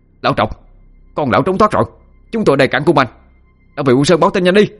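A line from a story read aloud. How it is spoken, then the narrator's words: Skull's sudden loud shout. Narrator (Vietnamese): cái đầu lâu chợt hét lớn lên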